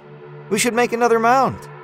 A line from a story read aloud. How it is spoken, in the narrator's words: she says excitedly